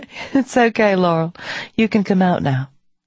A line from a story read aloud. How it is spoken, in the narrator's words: The bear laughs and says